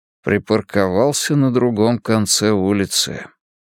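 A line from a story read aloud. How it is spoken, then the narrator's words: Mumbling. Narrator (Russian): пробормотал Мунк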